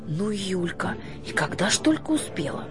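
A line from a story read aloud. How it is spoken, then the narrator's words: Whisper. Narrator (Russian): шепнула она отцу Василию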